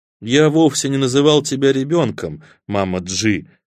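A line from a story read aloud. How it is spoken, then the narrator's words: Conciliatory tone. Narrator (Russian): примирительным тоном сказал Среда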